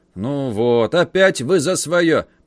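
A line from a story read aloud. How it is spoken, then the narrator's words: Grumbled. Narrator (Russian): пробурчал стражник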